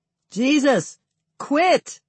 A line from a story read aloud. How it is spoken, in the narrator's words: Others pick up the yell